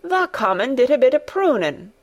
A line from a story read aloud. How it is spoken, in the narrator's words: cried Dickon